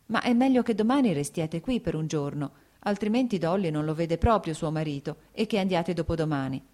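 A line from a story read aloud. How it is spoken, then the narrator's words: Plain. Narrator (Italian): disse Kitty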